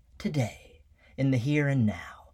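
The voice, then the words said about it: Bad Rod Serling impression. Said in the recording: “That was a really bad impersonation. I'm sorry, Rod. You just have such a distinctive voice.”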